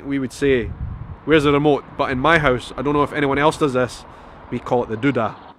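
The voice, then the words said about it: Scottish accent. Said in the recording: “the Scottish accent tag”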